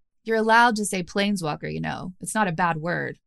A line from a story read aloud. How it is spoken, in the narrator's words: said Kaya